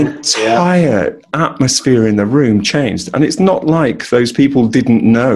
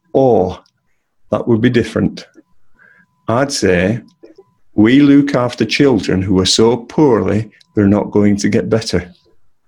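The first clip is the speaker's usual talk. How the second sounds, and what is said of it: Imitated Coronation Street-style northern English accent. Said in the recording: “she sounded like she just walked off the set of Coronation Street ... you'll forgive my attempt at the accent.”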